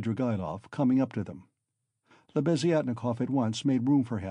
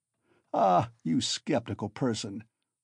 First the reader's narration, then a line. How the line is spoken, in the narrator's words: laughed Svidrigaïlov